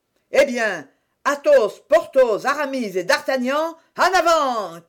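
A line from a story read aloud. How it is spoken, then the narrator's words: Shouted. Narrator (French): cria Athos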